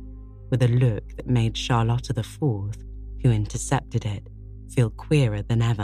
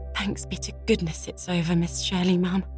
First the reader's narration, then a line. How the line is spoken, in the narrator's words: breathed Charlotta the Fourth